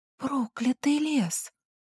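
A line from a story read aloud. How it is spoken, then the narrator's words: Disbelieving whisper. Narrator (Russian): прошептала я, не до конца веря в происходящее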